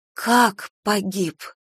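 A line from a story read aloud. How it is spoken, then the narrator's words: Breathless woman. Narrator (Russian): выдохнула она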